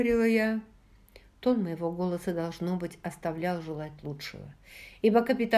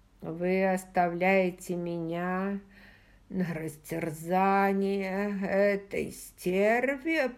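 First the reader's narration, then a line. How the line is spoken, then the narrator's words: Wheezing between painful gasps. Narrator (Russian): прохрипел он между мучительными вздохами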